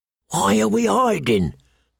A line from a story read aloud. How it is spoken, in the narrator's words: the bull whispered